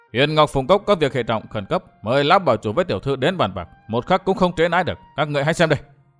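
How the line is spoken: Angry, loud. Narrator (Vietnamese): Ngô Thiên Lương tức giận quá to

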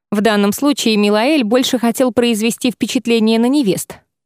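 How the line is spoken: Scoffing. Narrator (Russian): хмыкнул Шайран

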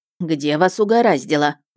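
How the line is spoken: Grumbling. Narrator (Russian): проворчала Дис

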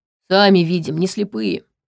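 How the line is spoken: Gloomy. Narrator (Russian): мрачно ответила Витал

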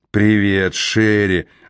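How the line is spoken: Hoarse voice. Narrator (Russian): осипшим голосом произнес

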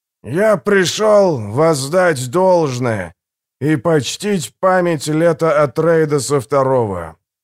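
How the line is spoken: Booming old man's voice. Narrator (Russian): заговорил старик зычным голосом погонщика червей

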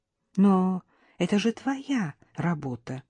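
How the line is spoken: Timid, hesitant. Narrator (Russian): робко заикнулась я

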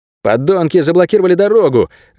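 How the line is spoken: Exclaiming. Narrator (Russian): воскликнул Альтар

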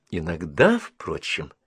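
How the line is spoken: Thoughtful remark. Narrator (Russian): заметила задумчиво

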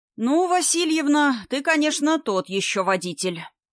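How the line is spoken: Spoken in silence, heavy sigh. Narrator (Russian): произнес в образовавшейся после столкновения гробовой тишине Вовка и тяжело вздохнул

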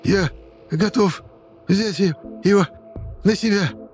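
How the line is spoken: Hoarse rasp. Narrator (Russian): Прохрипел детдомовец

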